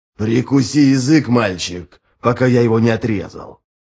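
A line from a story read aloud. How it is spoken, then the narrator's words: Growled. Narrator (Russian): прорычал капитан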